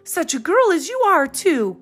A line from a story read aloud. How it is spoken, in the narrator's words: cried Mrs